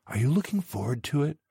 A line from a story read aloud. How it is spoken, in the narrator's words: whispered after the meal